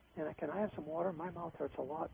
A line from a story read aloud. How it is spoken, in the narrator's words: Billy pleaded